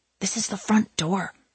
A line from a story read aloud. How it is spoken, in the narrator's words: she said to him in a fierce whisper